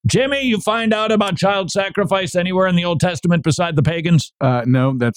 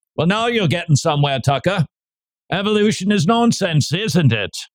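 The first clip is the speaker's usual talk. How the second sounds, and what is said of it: Put-on Australian accent. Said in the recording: “The sound that you're hearing has an Australian accent.”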